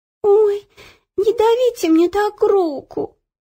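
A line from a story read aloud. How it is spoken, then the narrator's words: Whimpering. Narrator (Russian): захныкала Ело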